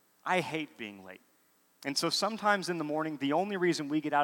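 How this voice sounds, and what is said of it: Usual voice. Nothing is said of it.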